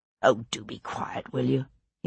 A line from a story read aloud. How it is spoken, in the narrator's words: He murmured to himself